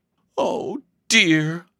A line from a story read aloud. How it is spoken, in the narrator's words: sighed Elsie